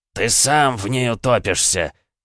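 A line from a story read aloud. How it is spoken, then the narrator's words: Growl. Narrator (Russian): прорычал бедный Ханс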